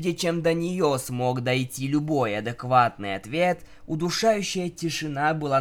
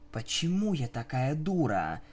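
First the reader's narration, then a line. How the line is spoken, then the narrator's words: Whisper. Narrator (Russian): прошептала единорожка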